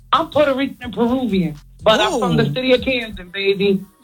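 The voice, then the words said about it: New York-sounding urban accent. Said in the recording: “you sound like a black woman from Brooklyn ... I thought you was from the Bronx at first”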